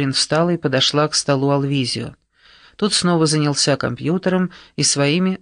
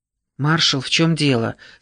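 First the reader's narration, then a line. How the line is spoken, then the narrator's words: Frightened, garbled words. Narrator (Russian): спросила она испуганно, комкая слова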